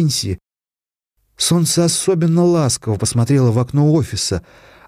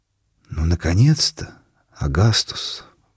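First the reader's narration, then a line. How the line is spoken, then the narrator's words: Whispered. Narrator (Russian): прошептал голос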